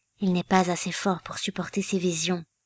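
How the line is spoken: Low voice. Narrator (French): dit Iraine à voix basse

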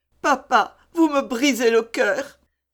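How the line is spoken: Exclamation. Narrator (French): s'écria Eva

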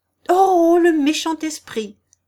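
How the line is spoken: Exclaimed. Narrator (French): s'écria celle-ci

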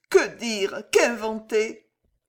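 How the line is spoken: Inward sob. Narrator (French): sanglota-t-elle au fond d'elle-même

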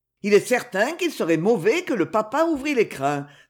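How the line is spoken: Laughing. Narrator (French): dit Crosa en riant

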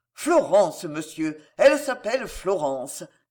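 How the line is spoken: Admiring exclamation. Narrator (French): s'écria avec admiration

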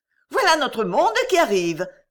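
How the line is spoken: Young woman exclaiming. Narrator (French): s'écria la jeune fille

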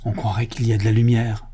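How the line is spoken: Whispered. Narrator (French): chuchota Victor

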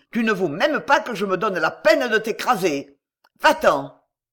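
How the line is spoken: Shouting. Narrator (French): cria-t-il

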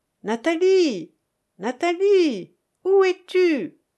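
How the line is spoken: Nearby shouting. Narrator (French): criait-on à quelques pas de nous

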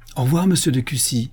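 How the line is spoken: Exclaiming. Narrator (French): s'écria-t-il

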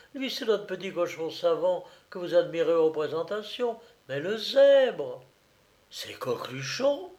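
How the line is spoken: Astonished exclamation. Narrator (French): s'écria Dumollet au comble de l'étonnement

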